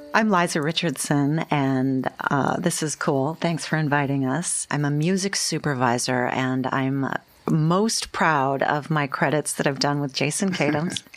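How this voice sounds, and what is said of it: Smooth radio announcer voice. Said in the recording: “I'm so intimidated right now by your radio voice.”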